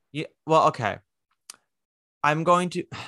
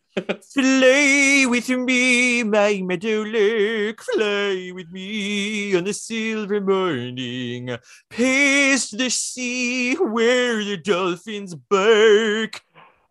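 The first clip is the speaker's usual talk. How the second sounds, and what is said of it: Sung imitation of another person's voice. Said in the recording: “my Alice Ripley impression ... you did a great job singing it”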